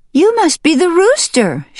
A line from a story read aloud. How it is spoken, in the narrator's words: she cried